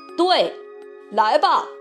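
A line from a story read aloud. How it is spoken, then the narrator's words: Loud. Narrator (Chinese): 卡梅利多大声地说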